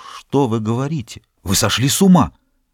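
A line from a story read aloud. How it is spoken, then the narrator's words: Whisper. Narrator (Russian): Он прошептал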